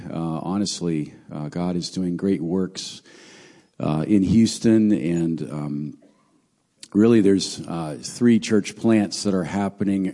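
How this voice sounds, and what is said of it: Strained, fading voice. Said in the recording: “Already losing my voice here, so pardon my, my voice”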